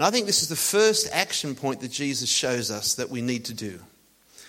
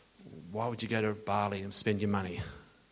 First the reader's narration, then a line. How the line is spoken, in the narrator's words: they muttered